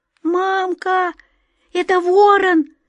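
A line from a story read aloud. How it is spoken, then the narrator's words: Thin frightened child's cry. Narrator (Russian): Тоненьким испуганным голосом вскрикнул маленький мальчик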